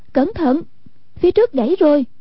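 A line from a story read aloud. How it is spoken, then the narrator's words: Cry of warning. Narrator (Vietnamese): Hoàng Dung kêu lên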